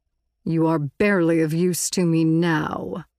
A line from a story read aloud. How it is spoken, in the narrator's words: Visser Three sneered